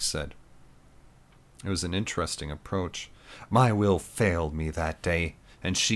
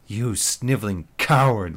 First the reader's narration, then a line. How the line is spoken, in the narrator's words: Lisa spat